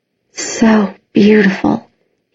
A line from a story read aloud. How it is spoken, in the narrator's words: he whispered